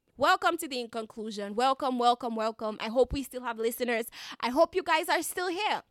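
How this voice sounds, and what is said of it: Light Dominican Caribbean accent. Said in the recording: “I am a Dominican citizen, Caribbean citizen ... a little bit of my accent, a little bit of that Marigot twang”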